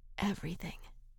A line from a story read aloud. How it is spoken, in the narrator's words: whispered